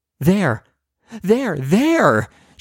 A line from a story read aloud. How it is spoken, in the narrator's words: she shrieks